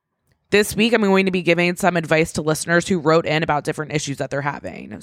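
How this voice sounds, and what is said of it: Raspy, sick-sounding voice. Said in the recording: “I also sound like a piece of shit right now ... sorry for my raspy voice”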